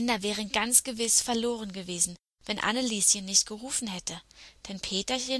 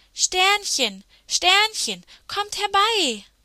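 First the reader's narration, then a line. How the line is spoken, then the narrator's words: Sudden loud call. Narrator (German): rief Anneliese plötzlich ganz laut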